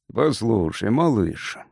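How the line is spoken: Good-natured grumbling. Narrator (Russian): добродушно ворчал Шолта

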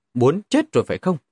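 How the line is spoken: Angry. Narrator (Vietnamese): Lưu trưởng lão giận dữ

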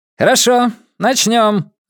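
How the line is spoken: Barked. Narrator (Russian): рявкнул адмирал Алдикакти

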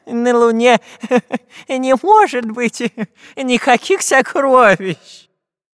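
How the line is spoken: Laughing. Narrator (Russian): Засмеялся профессор Пыхтелкин

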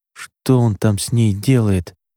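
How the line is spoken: Angry, through gritted teeth. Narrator (Russian): Сквозь зубы процедил он

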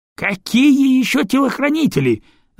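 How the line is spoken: Yelled, female. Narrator (Russian): заорала Арнелла

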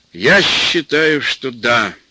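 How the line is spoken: Loud. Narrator (Russian): тоже громко сказал Степан

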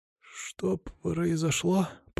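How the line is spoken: Young man's hoarse rasp. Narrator (Russian): прохрипел парень

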